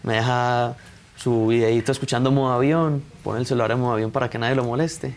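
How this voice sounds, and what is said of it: Colombian Medellín accent. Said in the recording (Spanish): “Eres de Medellín, ¿verdad? ... se escucha. Qué bonito acento tienen los de Medellín.”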